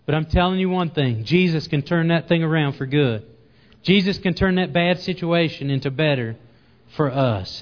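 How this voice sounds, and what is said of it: Southern accent. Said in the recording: “Excuse my southern accent”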